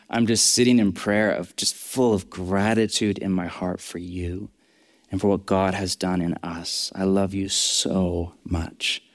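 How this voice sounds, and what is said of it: Emotional, choked-up voice. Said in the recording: “I'm getting a bit emotional”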